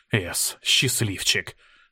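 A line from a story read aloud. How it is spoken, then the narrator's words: Breathless exhale. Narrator (Russian): выдохнул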